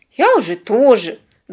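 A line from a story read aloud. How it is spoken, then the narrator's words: Annoyed grumble. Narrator (Russian): с досадой проворчала подруга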